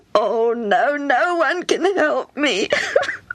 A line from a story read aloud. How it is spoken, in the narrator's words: Hammy sobbed